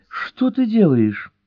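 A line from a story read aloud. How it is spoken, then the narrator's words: Pleading cry. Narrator (Russian): умоляюще вопиет Джелли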